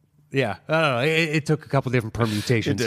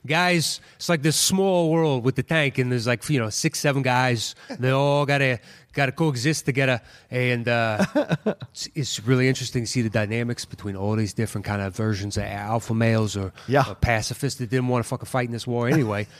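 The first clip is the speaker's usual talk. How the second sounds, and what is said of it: Put-on New York accent. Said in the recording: “Now it's New York. Now it's New York. ... I don't speak extemporaneously in a New York accent all that often.”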